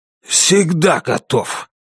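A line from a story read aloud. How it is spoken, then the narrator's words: Hoarse. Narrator (Russian): сипло сказал Китон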